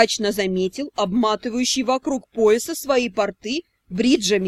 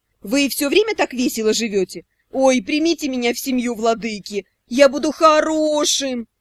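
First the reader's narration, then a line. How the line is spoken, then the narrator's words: Howl. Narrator (Russian): взвыл Шао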